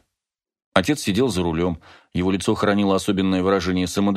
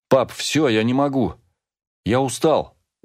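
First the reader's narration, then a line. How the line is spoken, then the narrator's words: Desperate exclamation. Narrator (Russian): в отчаянии воскликнул Тео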